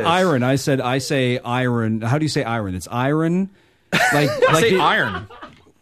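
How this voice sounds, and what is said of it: Distinctive regional Canadian accent. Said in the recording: “Your Stouffville accent is really weird.”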